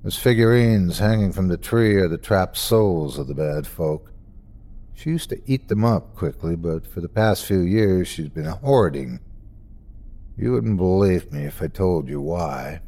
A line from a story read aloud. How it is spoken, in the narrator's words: He sighed then, said matter-of-factly